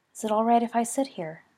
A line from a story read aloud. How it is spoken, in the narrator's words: asked, voice barely above a whisper